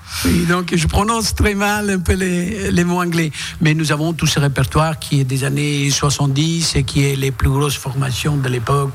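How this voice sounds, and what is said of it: Italian accent speaking French. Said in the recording (French): “vous avez un accent. ... Oui, je suis italien.”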